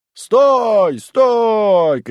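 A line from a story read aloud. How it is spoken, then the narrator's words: Men shouting. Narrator (Russian): кричали мужики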